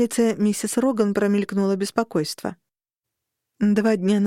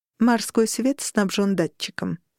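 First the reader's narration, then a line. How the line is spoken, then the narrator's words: Plain. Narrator (Russian): сказала миссис Роган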